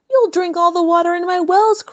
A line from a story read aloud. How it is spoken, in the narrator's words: cried the Roman